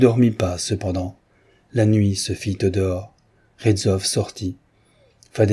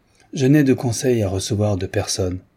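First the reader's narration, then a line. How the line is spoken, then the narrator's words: Curt reply. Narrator (French): répliqua sèchement Gretzky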